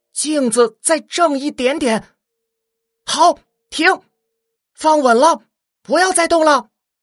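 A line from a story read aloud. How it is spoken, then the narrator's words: Loud, focused call. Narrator (Chinese): 寻音聚精会神的大声喊道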